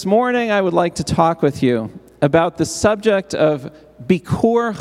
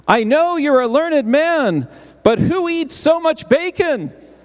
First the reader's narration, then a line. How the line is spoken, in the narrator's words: Moshe exclaimed